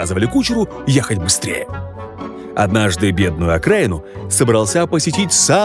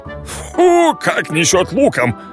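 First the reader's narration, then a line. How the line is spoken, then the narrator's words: Displeased grumbling. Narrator (Russian): богачам недовольно ворчали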